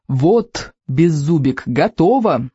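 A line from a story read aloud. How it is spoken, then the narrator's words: Plain. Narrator (Russian): сказал наконец Икинг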